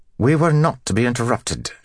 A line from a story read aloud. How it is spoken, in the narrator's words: she snapped through the sliver of open doorway